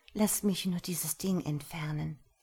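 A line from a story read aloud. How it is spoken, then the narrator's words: Murmured. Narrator (German): murmelte sie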